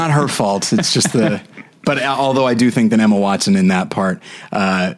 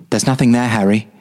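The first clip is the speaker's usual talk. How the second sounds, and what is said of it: Imitates a movie character's voice. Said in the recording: “my micro Hermione impression”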